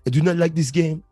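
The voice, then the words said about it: Put-on French accent. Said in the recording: “I'm trying to do a French accent.”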